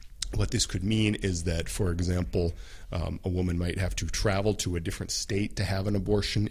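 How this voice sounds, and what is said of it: Congested voice with a cold. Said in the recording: “I have a little bit of a cold ... It's a bit hard to talk right now.”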